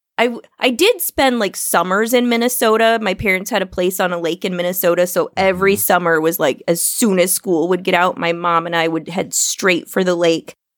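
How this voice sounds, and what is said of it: Midwestern, Minnesota-like accent. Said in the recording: “I love your, I want to say like Midwestern accent ... they think it's like a Minnesota accent.”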